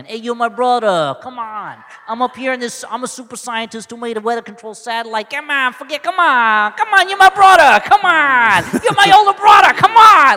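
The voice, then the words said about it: Put-on Donnie-from-the-Block American accent. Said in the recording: “they both have that, like, Donnie from the Block accent. ... They all sound like Fredo. ... that is the easiest accent for them to do”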